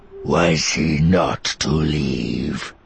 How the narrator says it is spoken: he demanded, his voice suddenly darker

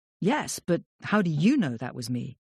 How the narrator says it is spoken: Evelyn laughing now

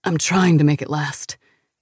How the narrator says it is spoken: pants

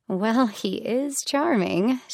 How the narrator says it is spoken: she said with a small laugh

